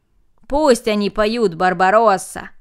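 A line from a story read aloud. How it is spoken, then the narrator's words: Group shouting. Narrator (Russian): закричали остальные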